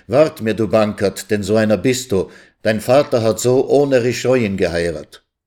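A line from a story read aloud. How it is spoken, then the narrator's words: Calling through gritted teeth. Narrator (German): rief er zähneknirschend dem sanften Knaben zu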